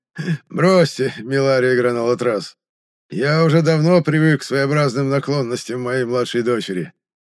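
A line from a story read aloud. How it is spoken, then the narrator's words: Forced, feigned laugh. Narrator (Russian): наигранно рассмеялся экселленс Лине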